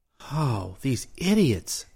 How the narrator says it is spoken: he groaned

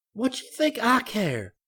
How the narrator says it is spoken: She yelled

